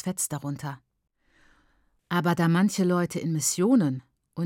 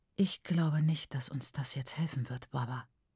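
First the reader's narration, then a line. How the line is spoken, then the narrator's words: Whispered. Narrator (German): flüsterte sie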